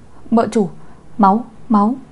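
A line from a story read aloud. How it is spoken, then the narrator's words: Panicked shout. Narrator (Vietnamese): quản gia Từ cũng hét lên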